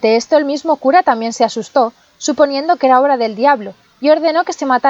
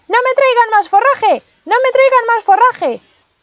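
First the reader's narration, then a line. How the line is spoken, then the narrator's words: Shouting again. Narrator (Spanish): Pulgarcito se puso a gritar de nuevo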